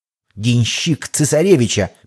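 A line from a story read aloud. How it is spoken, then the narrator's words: Vengeful hissed reply. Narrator (Russian): мстительно прошипел тот в ответ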